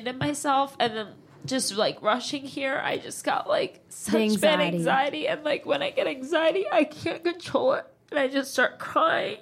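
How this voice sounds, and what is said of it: Nasal, congested voice. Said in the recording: “I sound like a nasally fucking, who's like a nasally singer? ... Britney can be nasally a little bit”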